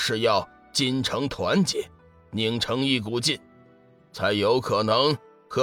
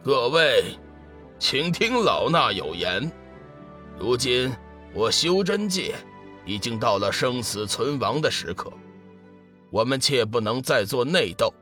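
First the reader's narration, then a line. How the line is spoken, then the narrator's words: Loud announcement. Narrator (Chinese): 空明大师 大声说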